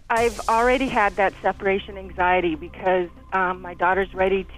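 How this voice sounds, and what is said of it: Shaky, emotional voice. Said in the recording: “You can hear the shaking in my voice now.”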